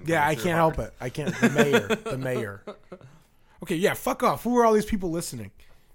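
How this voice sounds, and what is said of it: Midwestern accent. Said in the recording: “our Midwestern accent”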